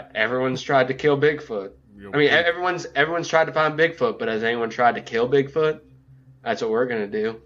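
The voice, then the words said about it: Vague put-on Southern accent. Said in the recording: “now I'm just going to offend everybody with a vaguely southern accent. ... With your Matthew McConaughey? ... It was spot on, by the way. ... It was not.”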